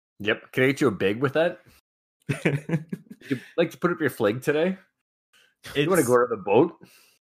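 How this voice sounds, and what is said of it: Northern Minnesota accent, near-Canadian. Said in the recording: “Sounds Canadian. ... It's very, very close. It's one notch shy of full-fledged Canadian. ... It's not exaggerated. That's just legit how people talk.”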